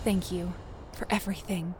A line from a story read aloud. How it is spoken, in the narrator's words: Kate whispered